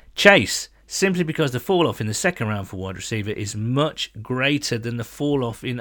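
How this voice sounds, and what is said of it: Usual voice. Nothing is said of it.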